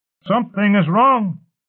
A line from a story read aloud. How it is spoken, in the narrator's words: one of the elite shouted